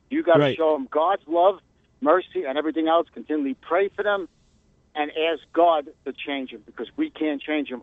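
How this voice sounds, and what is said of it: Fast-talking New York accent. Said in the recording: “fast-talking New Yorker”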